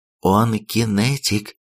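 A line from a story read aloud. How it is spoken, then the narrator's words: Whispered. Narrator (Russian): прошептала командир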